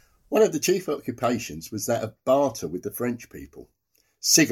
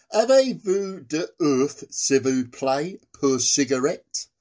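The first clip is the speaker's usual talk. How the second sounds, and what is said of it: Deliberately bad French accent. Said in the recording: “in a particularly bad French accent to recreate the whole thing of the British soldier”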